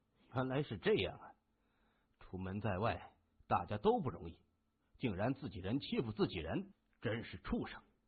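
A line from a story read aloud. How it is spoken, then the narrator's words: Low cursing. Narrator (Chinese): 金眼儿 低声骂着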